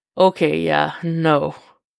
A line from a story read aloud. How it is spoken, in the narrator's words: Jason says, something like a growl escaping his chest